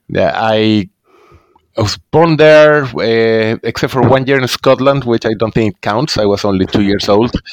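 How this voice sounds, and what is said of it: Chilean accent in English. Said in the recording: “as you might guess by the accent, I didn't grow up in the U.S., so I'm from Chile in South America”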